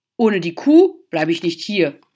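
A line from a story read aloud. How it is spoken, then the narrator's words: Bellowing ox. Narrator (German): brüllte der Ochse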